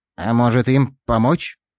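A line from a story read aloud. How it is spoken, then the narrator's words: Uncertain tone. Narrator (Russian): Неуверенно произнес Клещ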